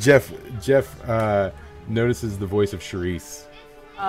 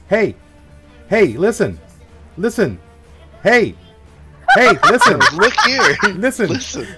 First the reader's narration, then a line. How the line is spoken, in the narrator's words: you hear very loudly, this tiny but loud voice that goes